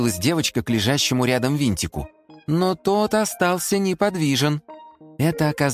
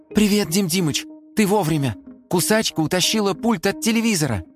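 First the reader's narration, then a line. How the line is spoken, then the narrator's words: Excited. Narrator (Russian): взволнованно заговорила Симка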